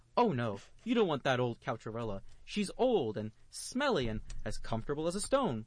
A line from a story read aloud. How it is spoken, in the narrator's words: the rich man said quickly and desperately